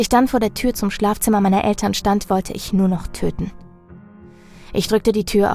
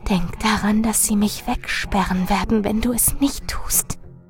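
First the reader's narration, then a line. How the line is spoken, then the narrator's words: Urgent whisper. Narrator (German): Doch Marilyn flüsterte eindringlich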